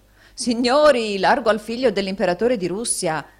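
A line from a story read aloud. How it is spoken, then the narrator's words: Someone shouting. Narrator (Italian): gridò un altro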